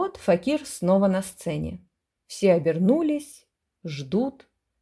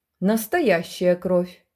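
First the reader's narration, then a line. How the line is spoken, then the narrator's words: Firm, joyful declaration. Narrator (Russian): твердо и радостно определил земский хохлач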